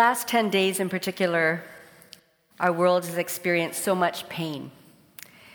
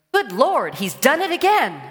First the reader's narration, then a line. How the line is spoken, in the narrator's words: The minister exclaims